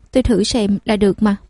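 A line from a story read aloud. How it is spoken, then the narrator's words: Cold dismissive tone. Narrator (Vietnamese): Vy Vy cười nhạt lại nói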